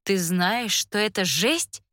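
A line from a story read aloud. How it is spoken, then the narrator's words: Loud cry. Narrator (Russian): вскрикиваю я так громко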